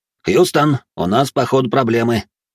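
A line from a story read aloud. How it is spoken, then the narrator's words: Wry snort. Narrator (Russian): хмыкнув, произнес Тёма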